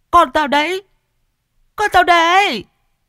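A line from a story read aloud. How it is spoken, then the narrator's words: Shrill woman's screaming. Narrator (Vietnamese): tiếng vợ mình gào choe choé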